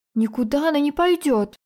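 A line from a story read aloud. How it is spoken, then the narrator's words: Exclaiming. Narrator (Russian): воскликнула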